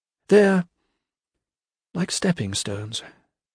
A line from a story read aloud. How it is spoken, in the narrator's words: she said, her voice losing momentum as a thought distracted her